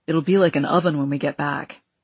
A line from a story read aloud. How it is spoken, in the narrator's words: Everett said